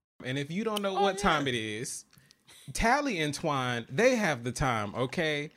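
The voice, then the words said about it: Country Southern twang. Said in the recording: “I know I'm a little country, so that twang hit”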